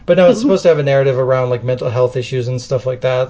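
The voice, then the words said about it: Voice suddenly going hoarse. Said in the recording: “losing my voice all of a sudden”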